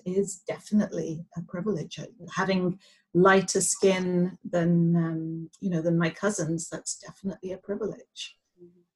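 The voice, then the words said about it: English accent. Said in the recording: “I have an English accent ... I have this lovely accent ... Having this lovely English accent”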